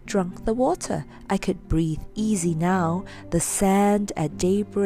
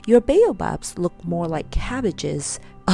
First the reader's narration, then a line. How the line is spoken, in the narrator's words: laughed as he said